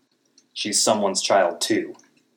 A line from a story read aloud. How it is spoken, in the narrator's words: I snapped